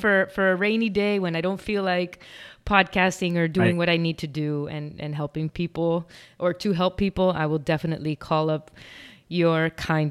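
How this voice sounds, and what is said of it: Pleasant podcasting voice with accent. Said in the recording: “I think that you have a great voice for podcasting. I think the accent adds a little flair”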